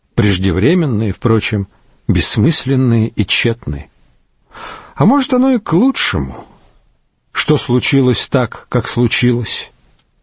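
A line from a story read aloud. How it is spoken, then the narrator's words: Curt, dry. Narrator (Russian): Приор кратко и сухо бросил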